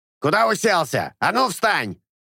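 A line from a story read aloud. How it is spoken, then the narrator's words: Loud barking shout. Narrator (Russian): гаркнул докер над ухом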